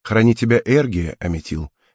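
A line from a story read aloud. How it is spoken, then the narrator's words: Gentle farewell. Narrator (Russian): мягко напутствовала Клио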